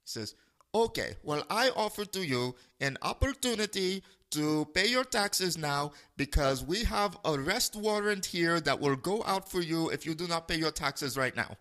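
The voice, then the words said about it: Bad fake foreign accent. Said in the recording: “This is a very bad fake accent... That's what he sounded like, though”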